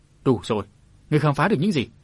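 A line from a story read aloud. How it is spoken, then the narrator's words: Old woman, increasingly irritable. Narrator (Vietnamese): Mụ lão tổ phu nhân càng lúc càng bẫn gắt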